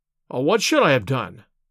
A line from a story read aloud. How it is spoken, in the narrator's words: I cried, with some heat